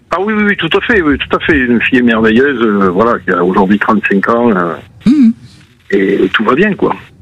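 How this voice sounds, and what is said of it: Toulouse regional French accent. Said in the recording (French): “mon accent de Toulouse”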